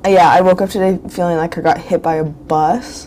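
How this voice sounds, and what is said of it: Rough, sick-sounding voice. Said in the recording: “my voice sounds really terrible ... it feels worse than it sounds”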